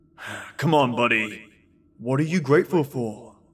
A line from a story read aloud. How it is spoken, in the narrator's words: He grunted